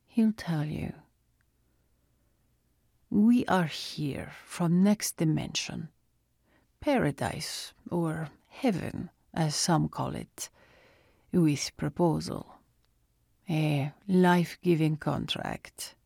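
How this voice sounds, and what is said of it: Thick Russian accent. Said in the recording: “His Russian accent was thick.”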